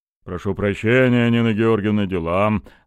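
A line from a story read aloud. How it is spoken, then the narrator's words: Deep rumbling bass. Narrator (Russian): рокотал густым басом начальник охраны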